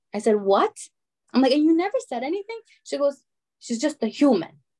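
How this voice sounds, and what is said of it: Usual voice. Nothing is said of it.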